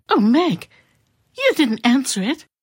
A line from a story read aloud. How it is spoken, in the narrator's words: cried Mrs